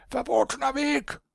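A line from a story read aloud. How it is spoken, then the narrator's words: Shouting. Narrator (German): schrien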